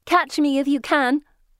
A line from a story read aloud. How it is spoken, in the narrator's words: one shouts